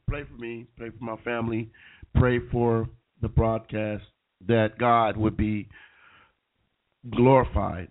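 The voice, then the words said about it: Sick, under-the-weather voice. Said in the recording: “I've been a little bit under the weather ... a little bit under the weather. You could probably tell in my voice.”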